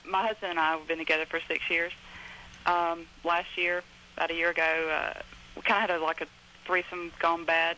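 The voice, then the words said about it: Southern US accent. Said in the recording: “I can tell by your southern accent.”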